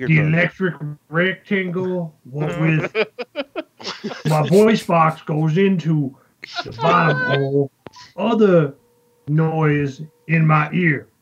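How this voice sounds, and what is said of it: Imitates another person's voice. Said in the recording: “I love your fucking impression. ... You heard the cadence. You heard the cadence in the answer.”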